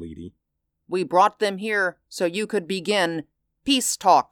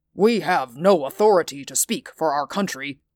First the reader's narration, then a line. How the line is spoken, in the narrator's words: Moss said stiffly